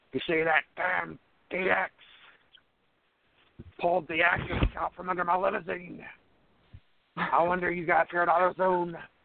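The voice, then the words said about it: Vince McMahon impression. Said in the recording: “Vince McMahon talking about AutoZone”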